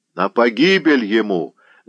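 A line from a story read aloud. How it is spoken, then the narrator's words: Shout. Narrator (Russian): закричал Гладкий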